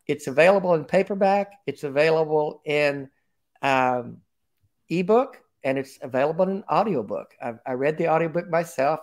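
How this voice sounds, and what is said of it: Country twang accent. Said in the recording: “my country twang”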